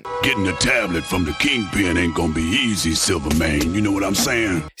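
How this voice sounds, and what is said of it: Strong accent, slangy character voice. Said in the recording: “It's a strong accent ... He's got a little bit of slang in there”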